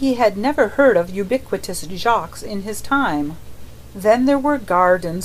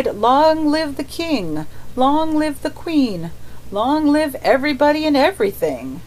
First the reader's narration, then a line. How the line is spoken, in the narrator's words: The mender of roads, so much to his temporary intoxication, that he cried